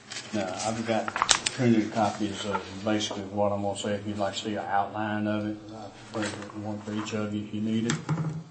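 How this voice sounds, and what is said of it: Southern US accent. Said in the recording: “This southern accent's not easy to understand sometimes.”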